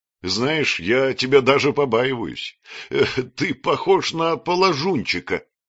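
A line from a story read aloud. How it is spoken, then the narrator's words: Laughing. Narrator (Russian): расхохотавшись, сказал он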